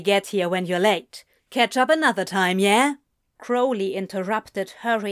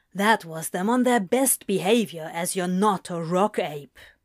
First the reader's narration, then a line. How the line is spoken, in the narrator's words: Crowley grumbled